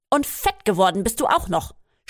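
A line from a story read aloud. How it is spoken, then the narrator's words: Snapping. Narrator (German): schnauzte an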